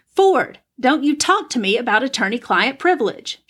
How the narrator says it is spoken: she shouted

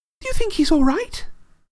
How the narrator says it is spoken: She squealed through her fingers

